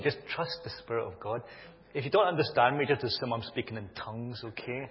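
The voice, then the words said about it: Mild Glaswegian Scottish accent. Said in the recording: “my accent... I don't think it's that strong anymore. I think I've anglicized it a bit... Glaswegian tongues”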